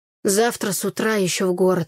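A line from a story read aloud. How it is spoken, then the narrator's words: Grumbled. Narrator (Russian): проворчал Игорь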